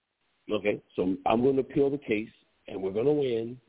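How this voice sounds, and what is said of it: Donald Trump impression. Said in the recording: “I like it how you do your Donald Trump voice. ... Go ahead with your Donald Trump voice. That was the shit.”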